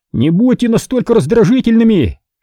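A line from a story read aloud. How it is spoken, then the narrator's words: Yelling back into tavern. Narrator (Russian): вопил третий, крича назад в таверну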